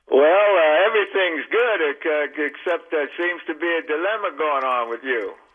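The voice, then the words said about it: Southern drawl. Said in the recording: “I get a little southern drawl ... Call it a football drawl.”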